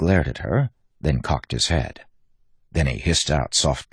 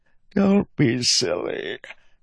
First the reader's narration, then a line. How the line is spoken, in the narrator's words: said Reddy with a yawn